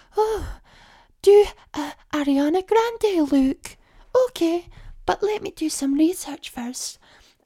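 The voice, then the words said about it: Cutesy quirky Marilyn Monroe-style voice. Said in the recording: “did an impression taking the piss out of that ... quirky accent, clearly not a real voice ... That Marilyn Monroe girl who does like really cutie videos”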